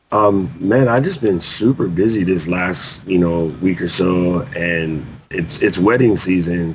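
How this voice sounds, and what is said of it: Rough, strained voice. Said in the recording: “my voice is all jacked up”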